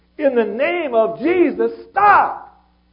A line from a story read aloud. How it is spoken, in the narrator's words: cried out with a loud voice